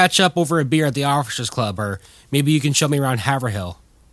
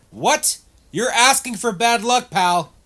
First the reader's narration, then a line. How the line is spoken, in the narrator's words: yelled out Oliver